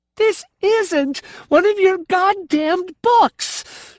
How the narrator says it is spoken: she screamed

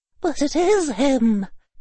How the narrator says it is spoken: quavered an old woman

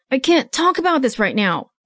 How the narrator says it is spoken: he would yell

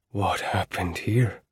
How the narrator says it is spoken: Iota asked in a hoarse whisper

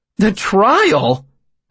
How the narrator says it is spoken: I laughed

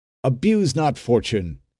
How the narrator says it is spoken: exclaimed a third

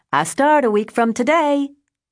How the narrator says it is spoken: She called me giddy, screaming

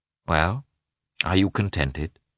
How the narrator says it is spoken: asked Koznishev

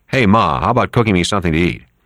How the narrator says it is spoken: he yelled into his mother

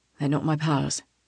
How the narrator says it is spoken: he murmurs

